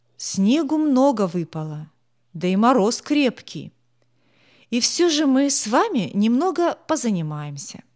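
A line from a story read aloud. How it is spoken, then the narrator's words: Cheerful announcement, teacher. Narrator (Russian): бодро объявил затем учитель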